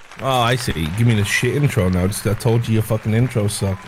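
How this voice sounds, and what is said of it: Irish accent. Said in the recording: “He's from Ireland or one of those states or countries with the accent he has ... Like I said, from Ireland or one of those countries.”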